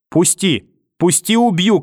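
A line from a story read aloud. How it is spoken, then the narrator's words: Distant shouting in the dark. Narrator (Russian): кричала где-то в темноте бабушка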